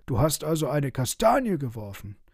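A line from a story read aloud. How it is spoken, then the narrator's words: Shouted. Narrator (German): schrie Frederik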